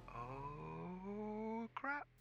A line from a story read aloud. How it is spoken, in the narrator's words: Sarah muttered